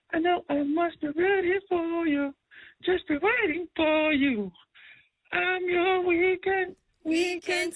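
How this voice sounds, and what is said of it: Singing in falsetto. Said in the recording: “That was my best falsetto I could do coming out of like flu season.”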